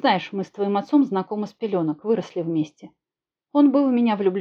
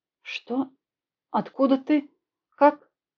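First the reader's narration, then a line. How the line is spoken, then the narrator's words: Incoherent start. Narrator (Russian): Бессвязно начала она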